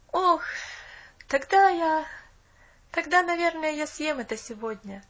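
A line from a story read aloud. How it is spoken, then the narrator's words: Boy's sigh. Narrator (Russian): вздохнул мальчик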